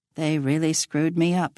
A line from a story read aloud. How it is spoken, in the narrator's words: he mutters